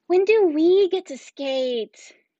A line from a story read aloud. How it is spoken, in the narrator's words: Kinsey moaned